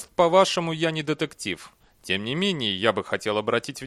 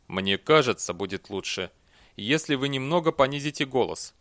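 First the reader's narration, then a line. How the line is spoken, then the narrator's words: Calm. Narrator (Russian): спокойно произнес Эрденил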